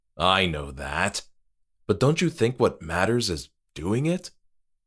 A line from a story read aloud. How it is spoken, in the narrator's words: Moira sighed